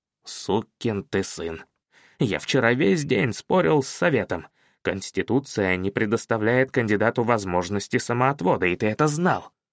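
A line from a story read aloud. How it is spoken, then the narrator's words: Whispering. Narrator (Russian): Блюмлейн прошептал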